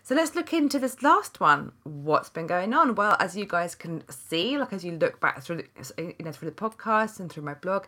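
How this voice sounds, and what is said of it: Congested, nasal sinus-affected voice. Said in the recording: “as you could probably hear from my voice, I'm just recovering from a big sinus infection.”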